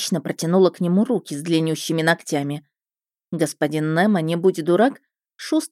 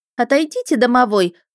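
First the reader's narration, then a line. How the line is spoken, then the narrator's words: Indignant puffing woman investigator. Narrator (Russian): возмущенно пропыхтела госпожа следователь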